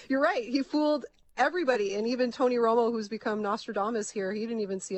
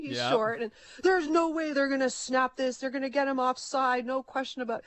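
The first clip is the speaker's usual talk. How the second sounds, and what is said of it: Poor imitation of sports commentator. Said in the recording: “That's a really bad Tony Romo impression”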